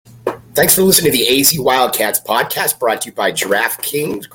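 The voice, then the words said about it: Voice sounds a little off. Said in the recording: “as you might hear, my voice is a little off”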